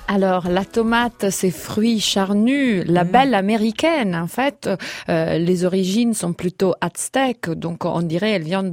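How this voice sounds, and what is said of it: Italian accent speaking French. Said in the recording (French): “Ce petit accent qu'on adore”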